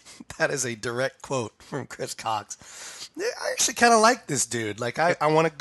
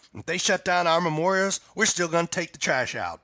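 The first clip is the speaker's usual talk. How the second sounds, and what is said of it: Put-on Southern country accent. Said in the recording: “sounds an awful lot like Tommy Frizzell ... whenever I do country, I sound like my dad ... I suppose that South Carolina is a different dialect than Texas”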